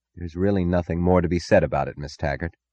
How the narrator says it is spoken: he said quietly

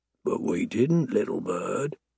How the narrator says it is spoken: I murmur softly

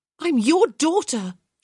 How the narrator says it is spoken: she cried out

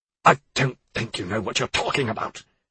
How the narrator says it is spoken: he spluttered

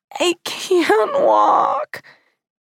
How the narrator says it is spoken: When Arthur was a toddler, he would yell

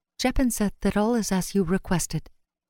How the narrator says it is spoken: On a soft breath, she whispered

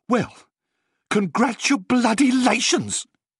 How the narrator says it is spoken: she spat

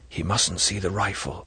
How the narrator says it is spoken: He said softly out of the corner of his mouth

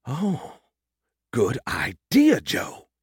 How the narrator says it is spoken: he gasped

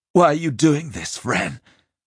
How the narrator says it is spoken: Simon gasped

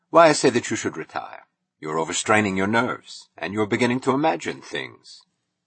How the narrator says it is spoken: Francone answered dryly

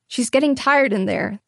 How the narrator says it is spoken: the obstetrician said

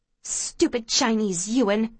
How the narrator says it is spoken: she hisses at me

